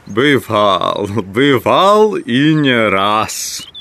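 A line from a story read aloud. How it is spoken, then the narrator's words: Laughing shout. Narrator (Russian): скричал он, смеясь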